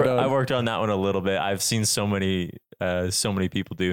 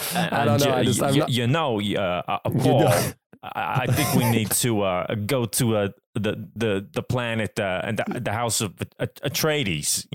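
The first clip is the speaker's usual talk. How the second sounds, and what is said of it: Christopher Walken impression. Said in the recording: “do his voice ... Christopher Walken”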